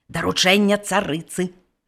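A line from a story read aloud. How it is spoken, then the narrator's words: Whispered into ear. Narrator (Belarusian): прашаптаў на вуха карчмару галоўны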